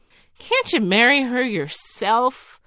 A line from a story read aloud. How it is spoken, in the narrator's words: inquired his Majesty, laughing